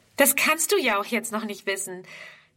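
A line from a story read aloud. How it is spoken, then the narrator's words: Replying with a laugh. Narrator (German): erwidert Friedrun lachend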